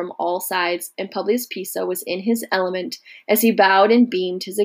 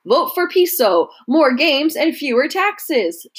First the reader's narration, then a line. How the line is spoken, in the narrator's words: chanted a third